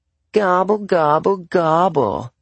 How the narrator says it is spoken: I replied in a whiny girl voice, face down in the carpet

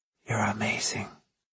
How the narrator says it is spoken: she'd whisper into my ear repeatedly

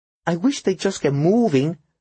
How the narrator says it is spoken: the waitress suddenly said, her voice tight with nerves

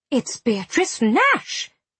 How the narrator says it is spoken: his aunt exclaimed

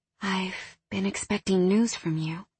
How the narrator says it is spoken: she whispered

